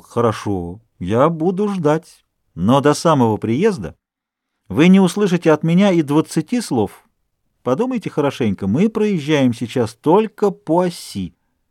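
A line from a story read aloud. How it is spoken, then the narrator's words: Composed and cheerful. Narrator (Russian): к нему снова вернулось его хладнокровие, и он весело сказал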